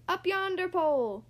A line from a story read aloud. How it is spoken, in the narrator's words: the other shouted